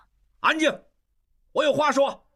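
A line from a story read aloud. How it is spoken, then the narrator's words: Loud. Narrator (Chinese): 突然间，应季大声说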